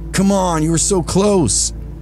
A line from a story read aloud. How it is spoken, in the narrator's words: another voice hollered